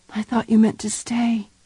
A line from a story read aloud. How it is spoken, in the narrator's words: whispered